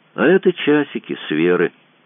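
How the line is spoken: Flat toneless voice. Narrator (Russian): бесцветным голосом сказал Мазур

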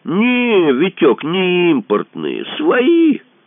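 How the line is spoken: Loud announcement. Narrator (Russian): Второй громко сообщил третьему

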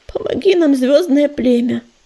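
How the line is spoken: Pleading. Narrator (Russian): взмолилась она

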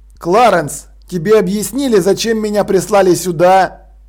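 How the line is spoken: Plain. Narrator (Russian): спросил он

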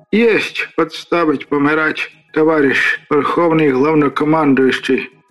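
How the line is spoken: Hoarse wheeze. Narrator (Russian): просипел я

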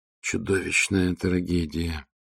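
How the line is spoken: Choked mutter. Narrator (Russian): сдавленно пробормотал биолог экспедиции Эон Тал

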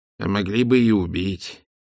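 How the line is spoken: Muttered. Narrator (Russian): пробормотал он

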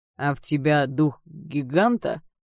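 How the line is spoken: Grumbled. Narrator (Russian): буркнул он

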